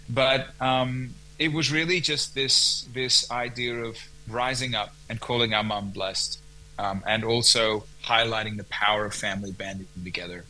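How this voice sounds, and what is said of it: American accent. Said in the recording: “I can actually hear that American accent there too.”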